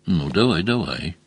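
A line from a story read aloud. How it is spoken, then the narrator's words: Encouraging, almost gentle. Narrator (Russian): поощрил Мазур почти ласково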